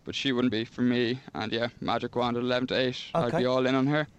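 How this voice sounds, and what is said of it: Irish accent with a Kenyan touch. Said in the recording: “regional Irish accents. I can't place yours ... I just have a Kenyan touch to my accent ... is he from Limerick or Donegal? Turns out Kenya.”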